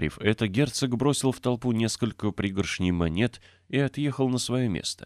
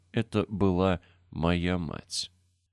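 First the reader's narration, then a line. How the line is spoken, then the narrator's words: Lifeless child's voice. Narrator (Russian): Нарядный ребенок вымолвил безжизненным голосом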